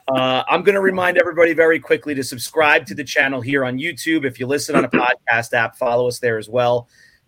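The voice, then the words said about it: Hoarse, strained voice. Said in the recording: “I'm on the cusp of getting sick. I'm losing my voice.”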